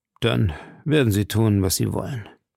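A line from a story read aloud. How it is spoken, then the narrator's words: Sighing addition. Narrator (German): fügte er mit einem Seufzer hinzu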